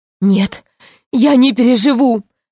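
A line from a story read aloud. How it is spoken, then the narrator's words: Sobbing. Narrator (Russian): рыдал Гарольд Иванович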